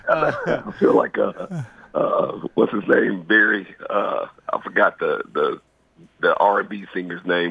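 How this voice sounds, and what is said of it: Hoarse voice. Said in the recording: “I'm hearing that you're a little hoarse ... with that voice of yours”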